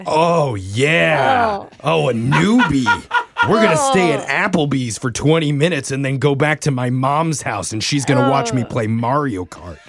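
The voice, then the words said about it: Impression of a sleazy guy. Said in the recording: “do an impression right now of a guy seeing fresh meat on a dating app”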